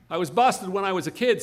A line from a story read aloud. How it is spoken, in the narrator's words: said Dave